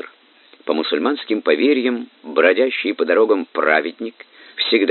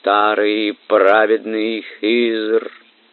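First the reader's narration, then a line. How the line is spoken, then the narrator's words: Melodious, pleading. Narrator (Russian): певучим голосом, полным мольбы, произнесла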